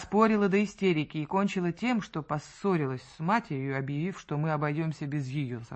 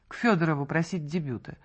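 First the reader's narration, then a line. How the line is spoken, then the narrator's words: Icy tone. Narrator (Russian): ответила она ледяным тоном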